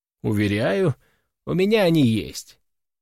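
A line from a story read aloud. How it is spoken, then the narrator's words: Calm reply. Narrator (Russian): спокойно отвечаю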